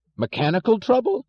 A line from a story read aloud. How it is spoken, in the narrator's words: yelled Mr